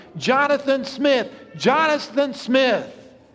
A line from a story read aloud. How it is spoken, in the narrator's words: The father began crying out loudly